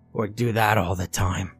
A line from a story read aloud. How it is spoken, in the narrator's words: she wheezed